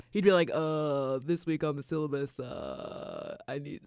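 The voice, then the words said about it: Poor imitation of another person's voice. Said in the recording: “my Obama impression. It wasn't very good. ... it was terrible.”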